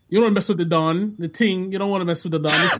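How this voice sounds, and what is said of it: Put-on Jamaican accent. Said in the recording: “now he's like Jamaican Drake ... Now you Jamaican? ... that little accent in his voice now”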